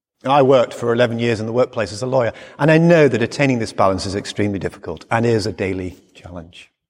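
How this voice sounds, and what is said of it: English accent. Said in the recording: “my accent never changed, and I was as English then as I am today”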